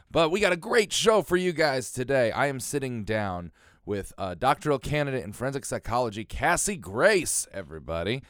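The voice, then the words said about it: Slightly raspy voice. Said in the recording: “if I sound a little raspy. Got myself a cold.”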